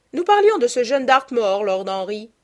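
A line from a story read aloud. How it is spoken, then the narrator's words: Duchess exclaiming. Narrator (French): s'écria la duchesse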